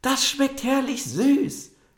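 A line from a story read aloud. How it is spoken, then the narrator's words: Called out. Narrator (German): rief sie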